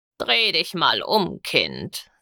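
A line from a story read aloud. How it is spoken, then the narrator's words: Old, croaky, impatient voice. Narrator (German): sagte eine alte, krächzende Stimme, leise und etwas ungeduldig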